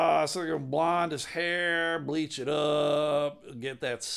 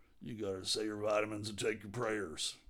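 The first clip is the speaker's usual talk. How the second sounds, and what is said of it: Deep-voiced Hulk Hogan impression. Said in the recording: “Hulk Hogan's got that deep voice, brother... How's he going to learn how to talk like this? And this is not even a good impression.”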